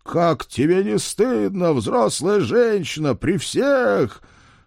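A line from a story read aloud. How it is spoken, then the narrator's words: Angry, irritated yelling. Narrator (Russian): Злой и раздосадованный, заорав на секретаршу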